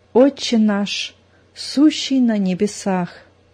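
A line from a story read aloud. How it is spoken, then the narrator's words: Tense whisper. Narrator (Russian): Зина зашептала, напряженно сморщив лоб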